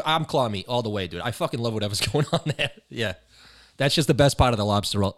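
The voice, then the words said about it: Massachusetts accent. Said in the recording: “if people didn't know that you were from Mass, they know it now. ... my accent would dox myself”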